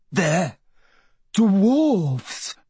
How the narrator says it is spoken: Michael gasped, finally managing to form the words

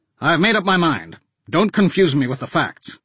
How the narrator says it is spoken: Anslinger snapped

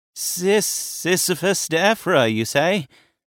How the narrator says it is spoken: Vasilis stuttered

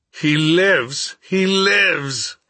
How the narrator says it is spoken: he exclaimed

